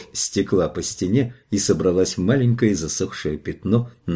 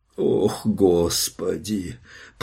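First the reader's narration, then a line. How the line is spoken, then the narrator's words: Groan. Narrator (Russian): простонал Джош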